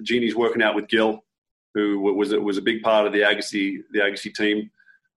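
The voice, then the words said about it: Slight Australian accent. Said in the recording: “you and I have a slight accent... Being from Australia”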